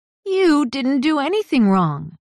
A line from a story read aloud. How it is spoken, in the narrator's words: Carly exclaimed